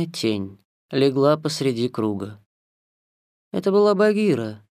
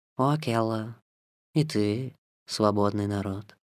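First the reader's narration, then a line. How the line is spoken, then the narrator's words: Purring. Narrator (Russian): промурлыкала она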